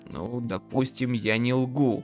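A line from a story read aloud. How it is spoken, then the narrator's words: Irritated grumble. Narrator (Russian): раздраженно проворчал Макфин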